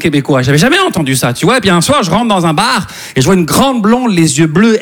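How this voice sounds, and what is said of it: Slight Québécois French accent. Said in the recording (French): “ça se peut que vous entendiez un petit accent québécois”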